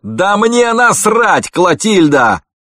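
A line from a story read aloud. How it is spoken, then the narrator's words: Yelling. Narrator (Russian): заорал Франк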